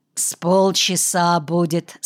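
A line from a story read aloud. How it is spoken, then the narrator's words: Plain. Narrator (Russian): сказал адвокат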